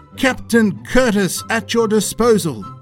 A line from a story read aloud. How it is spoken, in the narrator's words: shouting